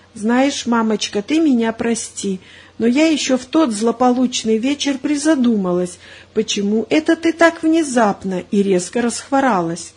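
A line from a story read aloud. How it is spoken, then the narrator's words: Trusting whisper. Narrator (Russian): Маринка доверчиво прошептала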